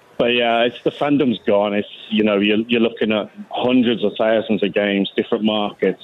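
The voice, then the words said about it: Birmingham English accent. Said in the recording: “because of the accent, we got to ask, where are you from? ... Birmingham, England.”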